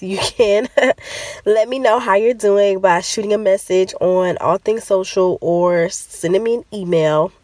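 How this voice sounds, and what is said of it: Congested, stuffy-nosed voice. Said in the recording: “Pardon my voice. I don't know if this is allergies or a baby cold or what is going on, but I'm a little stopped up.”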